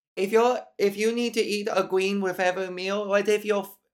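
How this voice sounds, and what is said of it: Terrible stereotypical put-on accent. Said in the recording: “this is sounding like a terrible stereotypical accent.”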